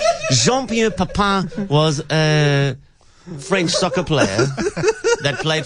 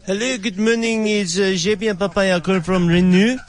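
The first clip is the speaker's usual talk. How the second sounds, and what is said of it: Put-on French accent. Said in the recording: “such a French accent”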